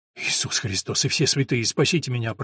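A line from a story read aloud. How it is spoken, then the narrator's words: Muttering. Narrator (Russian): пробормотал Филипп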